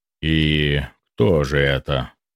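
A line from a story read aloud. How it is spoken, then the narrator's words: Sighing. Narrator (Russian): Максим вздохнул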